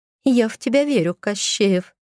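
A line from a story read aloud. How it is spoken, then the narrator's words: Quiet giggle. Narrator (Russian): хихикнула про себя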